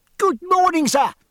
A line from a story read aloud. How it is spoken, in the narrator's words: cried George